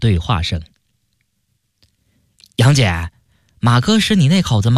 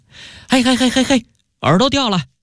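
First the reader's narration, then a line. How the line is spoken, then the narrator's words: Loud yell. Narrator (Chinese): 马特大叫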